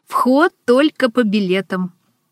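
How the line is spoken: Laughing exclamation. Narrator (Russian): смеясь, воскликнула

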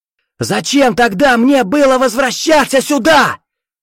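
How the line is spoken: Furious yell. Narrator (Russian): В ярости заорал Виктор

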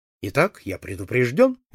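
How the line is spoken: Cheerful. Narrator (Russian): весело сказал я

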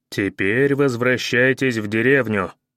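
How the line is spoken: Menacing. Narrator (Russian): грозно сказал я

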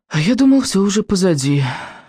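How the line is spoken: Exhaled words. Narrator (Russian): выдохнул Рыбьенок

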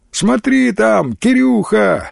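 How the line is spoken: Laughing shout. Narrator (Russian): со смехом крикнули

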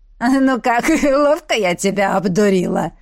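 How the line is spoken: Hoarse laughing. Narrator (Russian): хрипло смеясь обратилась

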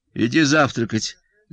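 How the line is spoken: Dry. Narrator (Russian): сухо, сказала жена

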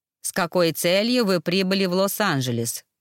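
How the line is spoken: Growling demon. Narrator (Russian): рычал рыжеволосый демон

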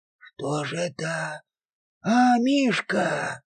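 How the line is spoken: Timid hesitant wheeze. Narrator (Russian): просипел более робкий и нерешительный Гаврила

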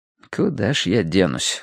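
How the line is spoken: Inward sigh. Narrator (Russian): вздохнул я мысленно

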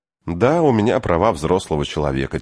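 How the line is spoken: Quiet. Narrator (Russian): тихо сказала Энн

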